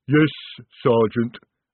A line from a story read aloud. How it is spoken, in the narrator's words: rumbled the troll